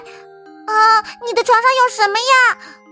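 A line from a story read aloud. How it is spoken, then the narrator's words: Scream. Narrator (Chinese): 他尖叫起来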